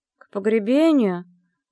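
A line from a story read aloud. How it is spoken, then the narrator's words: Sluggish grumbling mumble. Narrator (Russian): пробурчала, вяло поднимаясь с кровати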